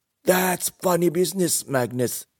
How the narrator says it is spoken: yelled Xin Yun

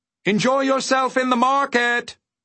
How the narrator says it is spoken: shouted back the undersecretary

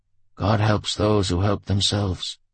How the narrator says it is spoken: Homer replied wearily

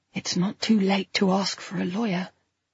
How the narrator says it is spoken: a little voice in my head whispers

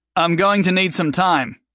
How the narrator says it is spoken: he called out

